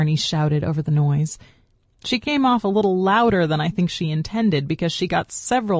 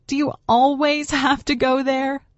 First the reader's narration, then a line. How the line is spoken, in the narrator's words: She asked, laughing